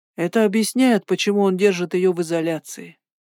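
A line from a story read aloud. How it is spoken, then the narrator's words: Gloomy. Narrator (Russian): сказал он мрачно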